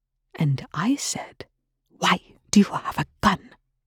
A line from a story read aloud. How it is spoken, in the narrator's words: Rush hissed with a viciousness